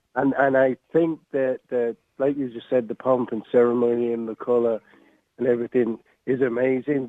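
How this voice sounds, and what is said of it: English accent. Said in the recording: “As you could tell from my accent, I'm English born of Irish descent, and I grew up in England till I was 15.”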